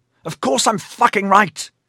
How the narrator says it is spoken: Troblum snapped

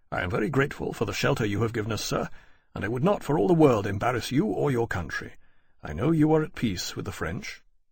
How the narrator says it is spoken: Lawrence said quietly

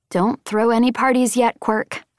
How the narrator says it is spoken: I said

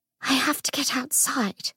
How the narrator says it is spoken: she whispered

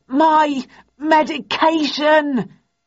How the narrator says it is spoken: with a Herculean effort, then stammered

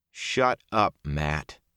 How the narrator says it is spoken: Perrin said

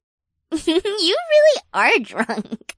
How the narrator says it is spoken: Becca giggled

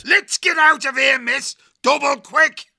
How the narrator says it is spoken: He roared

